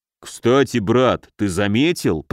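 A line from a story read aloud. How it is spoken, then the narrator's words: Booming drone. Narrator (Russian): прогудел Муром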